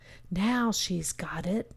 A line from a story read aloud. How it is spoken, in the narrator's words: the luminaries whispered to each other